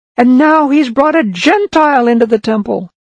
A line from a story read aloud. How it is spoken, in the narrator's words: Then they shouted